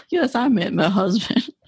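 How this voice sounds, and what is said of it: Put-on Southern American accent. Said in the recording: “I gave you a Southern accent”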